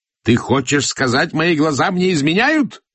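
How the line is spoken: Roared. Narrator (Russian): взревел Насыр-ад-Дин

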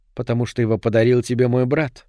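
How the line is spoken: Mutter. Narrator (Russian): пробормотала она

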